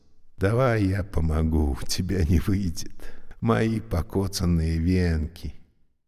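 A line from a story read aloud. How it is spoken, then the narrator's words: Unexpectedly gentle. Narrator (Russian): Он попросил неожиданно нежным голосом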